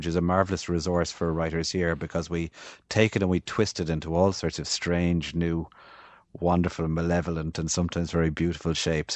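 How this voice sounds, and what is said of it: Midwestern Irish accent, Limerick. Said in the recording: “it's my accent, I suppose, would be quite Midwestern in Irish terms from around Limerick City where I grew up ... a proper West of Ireland accent would be much thicker than mine”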